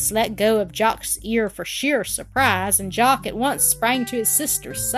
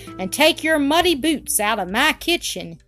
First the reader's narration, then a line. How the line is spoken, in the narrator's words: she shouted